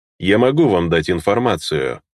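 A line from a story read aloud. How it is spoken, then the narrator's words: Thoughtful. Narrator (Russian): задумчиво произнес он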